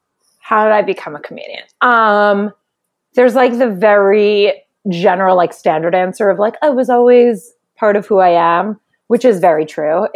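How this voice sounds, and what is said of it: New York Jewish accent. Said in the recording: “your accent, we can tell ... it just gets Jewier. Like everyone's like, is that a New York accent? I'm like, it's just Jewish.”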